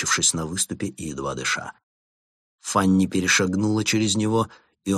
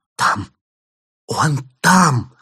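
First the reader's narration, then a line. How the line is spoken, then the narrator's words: Hoarse whisper. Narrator (Russian): хрипло прошептала она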